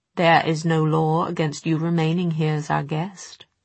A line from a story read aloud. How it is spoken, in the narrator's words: said Charlotte